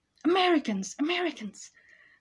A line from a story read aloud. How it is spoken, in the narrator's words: someone exclaim with glee